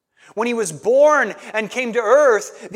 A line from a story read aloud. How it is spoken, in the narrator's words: the angels cried